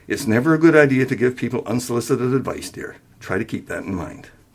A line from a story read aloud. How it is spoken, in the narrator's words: She smiled gently and added